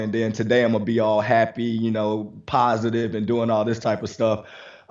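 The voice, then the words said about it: Slightly raspy voice. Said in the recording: “why my voice sounds a little raspy”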